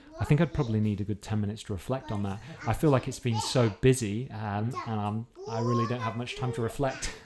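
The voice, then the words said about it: British accent. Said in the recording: “we're from the UK. You can probably tell from our accents.”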